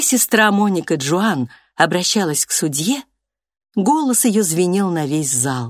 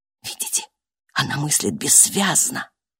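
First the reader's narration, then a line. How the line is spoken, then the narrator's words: Whisper. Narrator (Russian): прошептал терапевт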